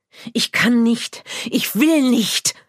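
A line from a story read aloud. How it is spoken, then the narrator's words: Hissing retort. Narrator (German): fauchte zurück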